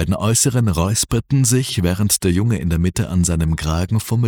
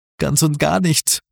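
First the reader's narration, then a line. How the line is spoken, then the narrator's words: Croaking. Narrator (German): krächzte er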